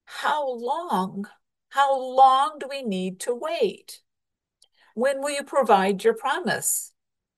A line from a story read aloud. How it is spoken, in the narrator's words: Abraham and Sarah cried out